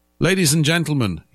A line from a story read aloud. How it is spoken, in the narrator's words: he shouted